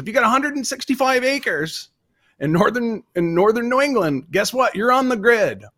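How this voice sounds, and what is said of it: New England (Vermont) accent. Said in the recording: “Can I do a New Englander rant ... I'll do my accent. I never do my accent ... I'm from Vermont originally”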